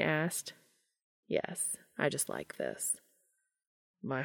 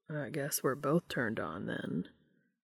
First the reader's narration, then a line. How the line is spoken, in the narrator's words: Dean said in a low rumble